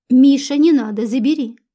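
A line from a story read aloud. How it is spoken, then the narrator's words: Stern. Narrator (Russian): строго сказала ему Любаша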